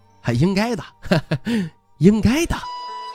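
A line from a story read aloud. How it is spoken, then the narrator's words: Smiling agreement. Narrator (Chinese): 徐凤年笑着应和道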